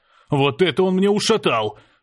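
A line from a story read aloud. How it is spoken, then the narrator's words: Staggering hoarse wheeze. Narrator (Russian): прохрипел я, едва удержавшись на ногах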